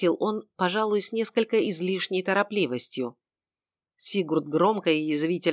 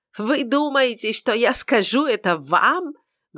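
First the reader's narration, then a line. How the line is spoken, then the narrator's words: Loud shout. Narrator (Russian): громко выкрикнул он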